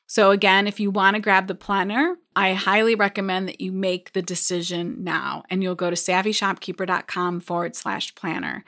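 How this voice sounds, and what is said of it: Strained, hoarse voice giving out. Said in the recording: “I feel like I'm losing my voice.”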